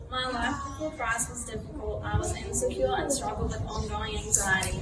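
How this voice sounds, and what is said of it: Strong accent, hard to follow. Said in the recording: “You probably have to listen very carefully to her accent.”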